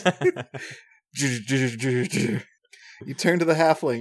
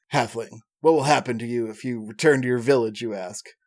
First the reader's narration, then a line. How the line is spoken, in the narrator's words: Loras laughs a bitter laugh